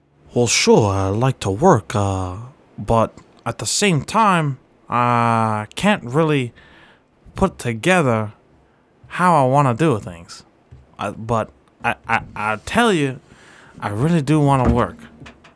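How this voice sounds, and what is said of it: Impersonation of a specific person. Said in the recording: “It's a very, very easy impersonation I'm doing ... It's not a type of person. It's a person. ... I don't know if you're trying to do like a New York voice, Southern voice.”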